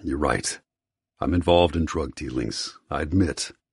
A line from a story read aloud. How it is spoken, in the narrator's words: my voice low